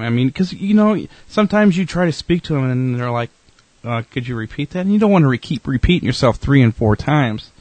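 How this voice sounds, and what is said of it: Southern American drawl. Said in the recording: “you got a southern drawl there ... I have a southern drawl. Yes! It's the 7 years living in Georgia.”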